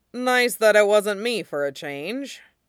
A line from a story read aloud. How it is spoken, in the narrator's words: he grumbles